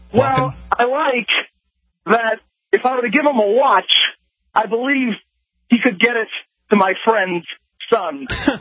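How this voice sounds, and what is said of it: Christopher Walken impression. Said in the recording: “It sounds like the same guy. ... doing an impression of Christopher Walken?”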